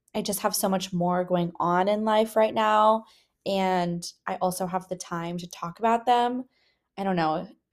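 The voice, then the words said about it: Sick, under-the-weather voice. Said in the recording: “I don't know if you guys can tell by my voice, but I am feeling a little bit under the weather.”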